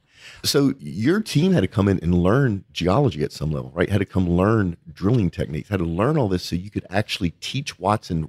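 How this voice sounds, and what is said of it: Cajun accent. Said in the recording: “my Cajun accent getting in the way”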